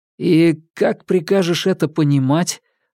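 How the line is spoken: Forced out. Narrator (Russian): выдавил Ньют

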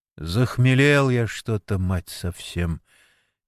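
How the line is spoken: Quiet. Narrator (Russian): тихо сказал Сергей Митрофанович

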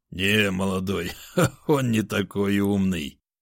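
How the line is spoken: Old man laughing. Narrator (Russian): рассмеялся пожилой охотник

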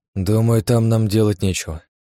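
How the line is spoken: Sigh. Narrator (Russian): вздохнул я

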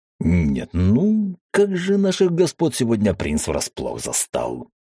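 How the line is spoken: Booming snort, declaring. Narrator (Russian): Гулко хмыкнув, заявил

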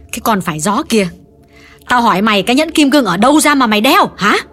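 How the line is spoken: Harsh, angry. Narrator (Vietnamese): Bà Thiết gay gắt nhắc lại

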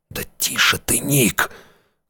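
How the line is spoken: Old man hissing. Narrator (Russian): зашипел на него старик

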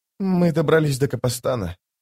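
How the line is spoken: Trembling voice. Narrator (Russian): дрожащим голосом сказала скала

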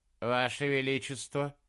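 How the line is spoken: Even voice. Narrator (Russian): ровным голосом ответил он

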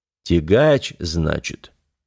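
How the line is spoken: Drawl. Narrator (Russian): протянул князь Урокфорд

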